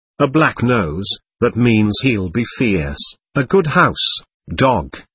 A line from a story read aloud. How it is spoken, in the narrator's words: Kolya observed gravely and stolidly